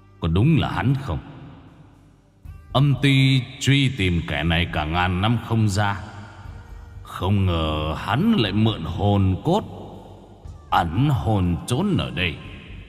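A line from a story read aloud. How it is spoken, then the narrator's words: Cold. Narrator (Vietnamese): Ngài, giọng lạnh lùng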